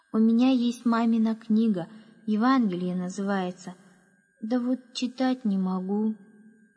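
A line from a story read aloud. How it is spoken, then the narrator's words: Sad drawl. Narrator (Russian): грустно протянул Яша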